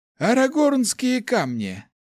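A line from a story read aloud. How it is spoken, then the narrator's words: Old man's hmph. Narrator (Russian): хмыкнул старичок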